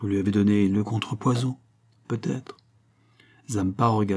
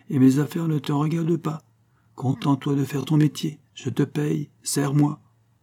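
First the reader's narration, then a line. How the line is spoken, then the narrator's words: Said coldly. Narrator (French): dit froidement Rocambole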